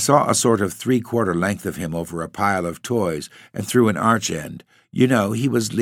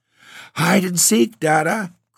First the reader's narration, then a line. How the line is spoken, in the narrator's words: cried Jip